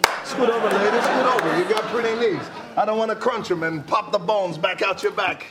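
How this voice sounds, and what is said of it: Absurd put-on comedic character accent. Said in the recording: “That Dwayne Johnson accent is incredible ... it's just absurd”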